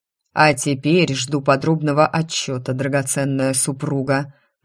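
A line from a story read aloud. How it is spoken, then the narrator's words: Growled. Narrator (Russian): прорычал Каен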